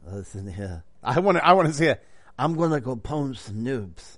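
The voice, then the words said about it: Poor imitation of another person's voice. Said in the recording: “That's a horrible Brando impersonation. Horrible.”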